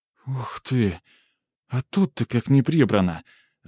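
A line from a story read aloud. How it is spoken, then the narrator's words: Exclaiming. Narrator (Russian): воскликнула Лизавета в комнате Евстигнея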